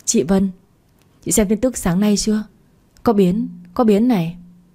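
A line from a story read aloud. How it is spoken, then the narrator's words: Hurried, stammering. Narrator (Vietnamese): cái Phương hấp tấp chạy tới, lắp bắp nói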